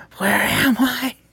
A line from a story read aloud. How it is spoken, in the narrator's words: he whispered a little louder